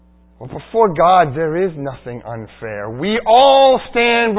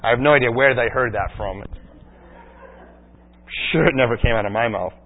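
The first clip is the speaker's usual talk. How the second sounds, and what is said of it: Sarcastic tone. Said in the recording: “That was sarcasm”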